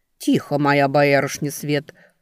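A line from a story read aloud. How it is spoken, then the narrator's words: Stern. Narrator (Russian): строго сказала Воевна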